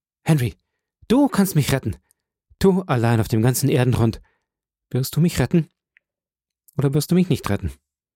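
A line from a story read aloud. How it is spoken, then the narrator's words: Shouted. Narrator (German): rief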